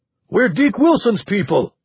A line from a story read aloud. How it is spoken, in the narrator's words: he shouted